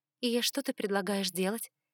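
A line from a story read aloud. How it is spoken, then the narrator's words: Plain. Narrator (Russian): спросила я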